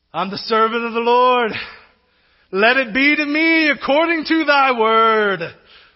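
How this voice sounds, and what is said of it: Put-on accent. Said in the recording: “I don't know why I'd use an accent anyways”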